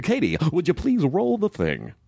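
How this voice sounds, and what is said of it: Exaggerated radio announcer voice. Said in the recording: “radio voice”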